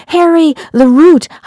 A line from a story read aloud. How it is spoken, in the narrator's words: I yelled